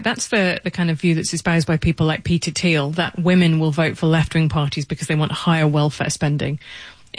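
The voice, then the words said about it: British accent. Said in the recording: “as you can hear from my accent, I'm British.”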